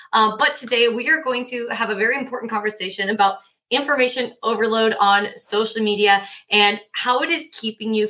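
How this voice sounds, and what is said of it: Slightly hoarse voice. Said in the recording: “my voice might still be a little bit hoarse ... I lose my voice ... might croak a little bit here”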